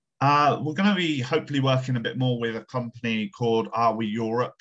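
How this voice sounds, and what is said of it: Thick West Country English accent. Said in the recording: “my thick West Country accent from the southwest of the UK”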